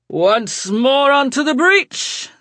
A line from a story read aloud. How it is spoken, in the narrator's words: Sebastian cried